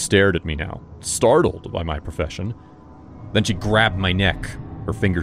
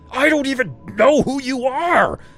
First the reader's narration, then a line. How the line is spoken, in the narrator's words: I screamed